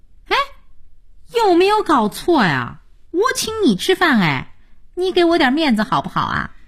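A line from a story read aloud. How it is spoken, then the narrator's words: Silly giggling. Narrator (Chinese): 佳音傻笑着说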